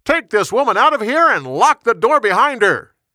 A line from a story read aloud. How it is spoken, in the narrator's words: He shouted